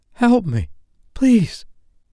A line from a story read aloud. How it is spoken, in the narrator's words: she panted wildly